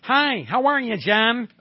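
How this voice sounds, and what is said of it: Buffalo accent with hard A. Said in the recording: “Very hard accent. Being from Buffalo ... A very hard A type of accent.”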